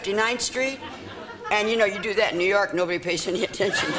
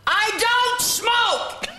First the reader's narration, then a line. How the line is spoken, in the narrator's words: I yelled